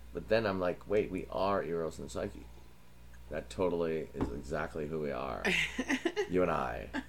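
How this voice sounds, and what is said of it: Put-on valley boy accent. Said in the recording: “What is this accent you're doing? ... It's a valley boy. ... It's a straight boy who's just got attitude. He's like metrosexual in the 80s. ... It's called a valley boy.”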